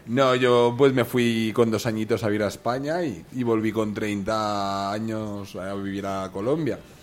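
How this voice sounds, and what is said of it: Spanish accent from Spain. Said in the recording (Spanish): “yo soy ... aunque tengo acento español”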